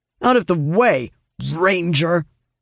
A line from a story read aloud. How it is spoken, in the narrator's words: the lead guard snaps